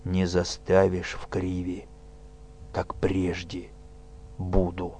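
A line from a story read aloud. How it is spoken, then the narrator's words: Fearless, hoarse. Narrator (Russian): Тимофей выпрямился, бесстрашно глядя на мучителя, сказал хрипло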